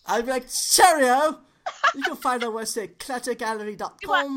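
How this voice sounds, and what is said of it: Put-on British accent. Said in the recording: “you got to do the Brit accent”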